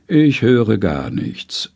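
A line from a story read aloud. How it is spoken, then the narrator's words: Calm woman, inhaling. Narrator (German): sagt die Frau ruhig aus und einatmend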